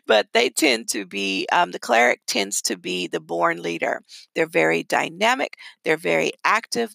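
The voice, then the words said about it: Midwestern American accent. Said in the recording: “I have a Midwest accent, so it may come out a different way.”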